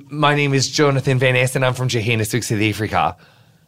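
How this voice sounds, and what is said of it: Attempted South African accent, sounds Australian. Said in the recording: “I can do a really good South African sentence... It sounds a bit more Australian... You just need to get your vowels a little more clipped”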